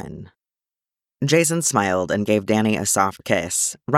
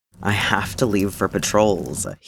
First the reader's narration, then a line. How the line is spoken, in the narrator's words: he groaned